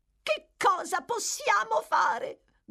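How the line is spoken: Shout. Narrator (Italian): gridò la signora Sowerberry

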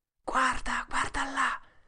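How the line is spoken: Whispered. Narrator (Italian): sussurrò Tom

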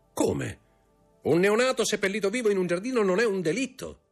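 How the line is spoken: Shouted. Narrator (Italian): gridò Montecristo

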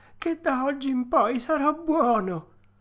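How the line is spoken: Sobbing puppet. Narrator (Italian): disse il burattino singhiozzando

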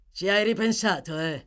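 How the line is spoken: Growled. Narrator (Italian): ringhiò Sykes

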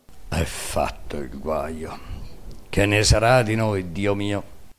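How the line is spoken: Murmuring. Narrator (Italian): Gianni il fedele mormorando

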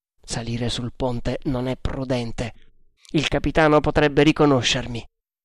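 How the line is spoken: Murmured. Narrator (Italian): mormorando

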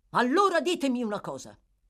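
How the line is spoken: Doctor exclaiming. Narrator (Italian): esclamò il medico

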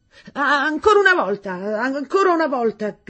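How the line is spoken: Shouted. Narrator (Italian): gridò Miss Meadows

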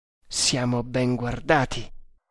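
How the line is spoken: Murmur. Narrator (Italian): mormorò

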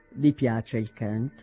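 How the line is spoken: Colder tone. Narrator (Italian): disse in tono più freddo

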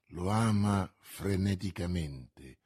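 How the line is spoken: Murmured. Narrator (Italian): mormorò D'Artagnan

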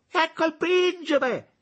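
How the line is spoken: Exclaimed. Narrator (Italian): esclamò donna Sara

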